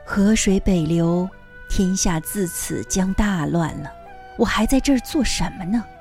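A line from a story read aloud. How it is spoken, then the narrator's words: Sighing. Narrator (Chinese): 王冕叹了一口气，说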